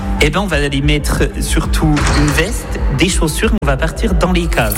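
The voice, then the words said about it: Franc-comtois regional French accent. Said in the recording (French): “il y aura mon accent, hein, c'est cadeau ... charmant franc-comtois, comme vous avez pu l'entendre”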